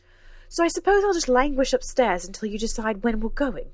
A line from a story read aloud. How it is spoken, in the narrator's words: snapped